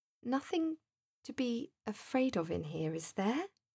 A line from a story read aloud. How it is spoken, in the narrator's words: he questioned, in his best, cheery, hopeful voice